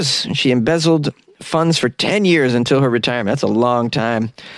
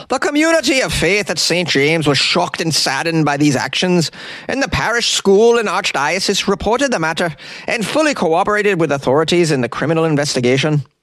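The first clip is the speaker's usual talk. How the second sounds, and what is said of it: Put-on Irish accent. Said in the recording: “I'm going to give it an Irish accent”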